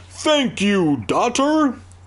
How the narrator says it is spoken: the snowman bellowed

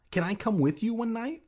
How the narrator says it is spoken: I asked eagerly

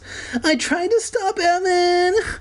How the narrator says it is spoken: Kermit sobbed like Cartman

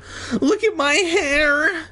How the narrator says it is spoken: Andy wailed

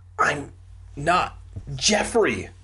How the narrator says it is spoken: I choked out my last words

